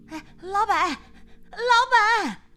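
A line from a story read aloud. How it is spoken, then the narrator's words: Calling out. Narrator (Chinese): 李桂桃一进来就喊着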